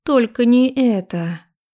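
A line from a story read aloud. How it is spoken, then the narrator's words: Inward moan. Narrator (Russian): простонала я про себя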